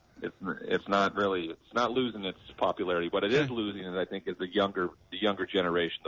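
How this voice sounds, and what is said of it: British accent. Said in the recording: “You can probably tell by his accent. ... You're talking to a Brit over there.”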